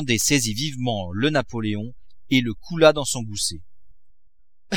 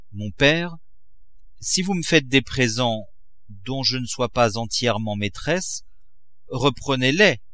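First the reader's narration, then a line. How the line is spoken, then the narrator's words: Cold reply. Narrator (French): répondit froidement Eugénie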